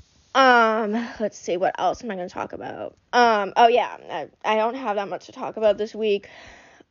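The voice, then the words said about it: Out of breath, sickly voice. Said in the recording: “I'm literally out of breath. I genuinely think I'm just getting sick”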